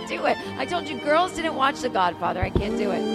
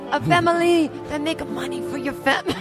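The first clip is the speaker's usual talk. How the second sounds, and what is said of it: Put-on accent. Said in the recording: “I slip into a different accent.”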